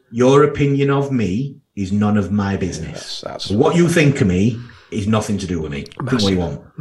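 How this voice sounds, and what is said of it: Strong Yorkshire accent. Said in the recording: “I've got a very strong Yorkshire accent, and I do talk with a bit of slang”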